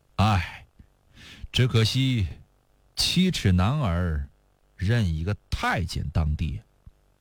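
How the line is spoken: Sighing. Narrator (Chinese): 李业叹了口气继续说

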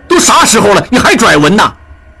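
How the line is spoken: Angry. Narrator (Chinese): 应震怒道

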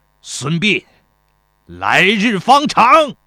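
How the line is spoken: Resentful shout. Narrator (Chinese): 邹忌愤恨地喊道

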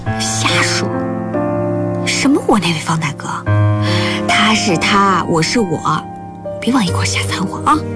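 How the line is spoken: Quiet. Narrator (Chinese): 卢旦月小声说

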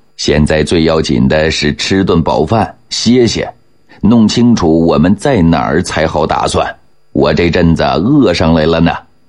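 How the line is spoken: Laughing. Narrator (Chinese): 永琰笑着说道

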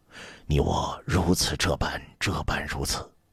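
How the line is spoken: Hushed voice. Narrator (Chinese): 朱买臣…压低了声音对众人说

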